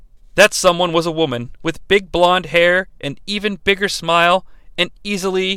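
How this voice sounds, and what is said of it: Usual voice. Nothing is said of it.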